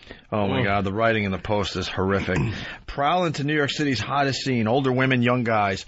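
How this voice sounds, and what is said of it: Usual voice. Nothing is said of it.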